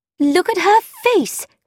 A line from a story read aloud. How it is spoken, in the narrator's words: cried Frankie